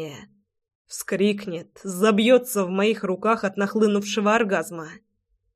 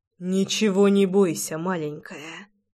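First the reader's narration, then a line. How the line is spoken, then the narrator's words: Whispering. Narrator (Russian): прошептал я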